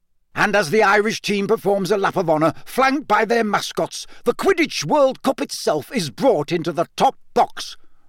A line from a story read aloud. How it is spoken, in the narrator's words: roared Bagman